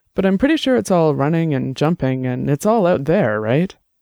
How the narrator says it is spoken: Annabelle laughed

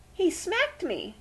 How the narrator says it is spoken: cried Daisy

